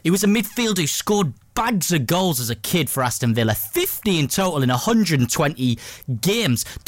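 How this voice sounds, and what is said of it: Put-on Geordie accent. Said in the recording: “Don't know why I'm doing it in a Geordie accent”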